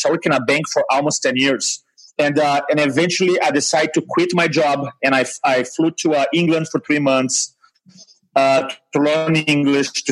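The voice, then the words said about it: Brazilian-accented English. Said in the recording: “recognizing my accent... I grew up in Brazil”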